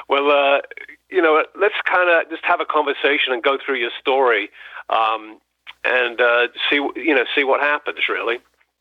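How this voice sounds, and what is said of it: English accent with American touch. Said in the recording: “You seem to be losing your English accent there. I mean, a touch of America there.”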